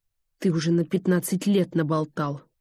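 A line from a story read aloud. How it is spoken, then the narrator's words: Angry. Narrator (Russian): зло сказала Ольга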